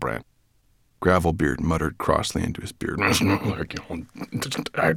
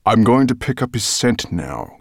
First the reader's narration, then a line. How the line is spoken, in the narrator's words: growled Nettlebrand